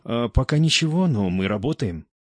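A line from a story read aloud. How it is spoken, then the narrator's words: Uncertain, timid. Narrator (Russian): Капитан, увидев резкую перемену в настроении своего начальника, неуверенно ответил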